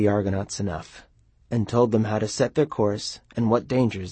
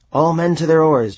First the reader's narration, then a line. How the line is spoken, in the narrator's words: Jason shouted